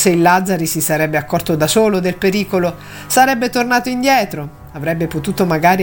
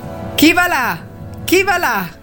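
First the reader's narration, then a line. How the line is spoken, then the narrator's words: Sentry shouting, repeated. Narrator (Italian): gridò per la terza volta la sentinella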